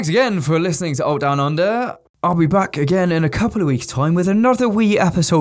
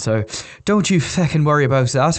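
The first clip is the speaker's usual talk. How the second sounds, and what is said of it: Put-on Irish accent. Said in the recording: “every now and then breaking into an Irish accent”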